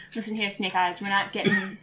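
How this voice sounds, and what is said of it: Put-on unidentified accent. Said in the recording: “I don't know what this accent is.”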